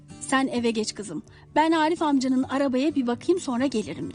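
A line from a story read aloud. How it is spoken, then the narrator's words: Plain. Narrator (Turkish): dedi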